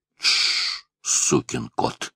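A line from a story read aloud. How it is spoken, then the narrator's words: Hissing. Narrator (Russian): зашипел на него мсье Пьер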